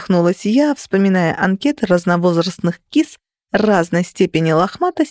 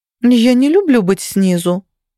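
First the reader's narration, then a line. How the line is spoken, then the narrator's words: Offended remark. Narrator (Russian): обиженно заметила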